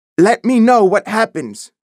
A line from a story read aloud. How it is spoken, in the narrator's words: Baker shouted